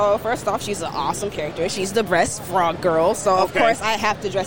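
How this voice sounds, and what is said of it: Usual voice. Nothing is said of it.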